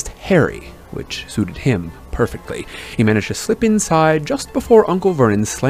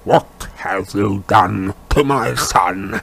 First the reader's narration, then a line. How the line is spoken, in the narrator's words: he said in a menacing growl